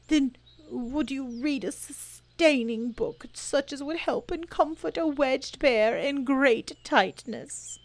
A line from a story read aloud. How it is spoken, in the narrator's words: Bear began to sigh and then found he couldn't because he was so tightly stuck, and a tear rolled down his eye, and he said